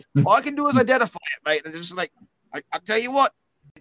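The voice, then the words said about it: Put-on New Zealand accent. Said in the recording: “Now we're slipping into my New Zealand bluey accent.”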